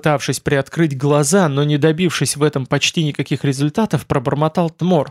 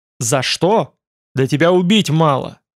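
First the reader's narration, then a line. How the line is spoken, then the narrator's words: Growl. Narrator (Russian): рыкнул Байда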